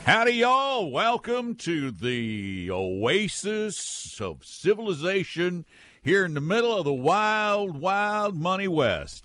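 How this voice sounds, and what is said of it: Wild West sheriff voice. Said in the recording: “accent ... It always start with an accent ... Wild West Sheriff voice”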